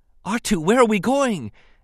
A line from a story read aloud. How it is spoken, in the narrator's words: Anakin gasped